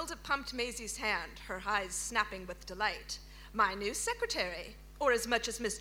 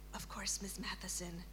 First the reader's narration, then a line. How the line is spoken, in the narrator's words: she whispered